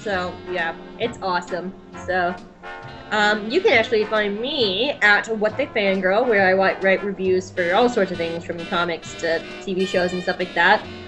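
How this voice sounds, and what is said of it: British accent. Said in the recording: “We got somebody British on here who talks the British accent.”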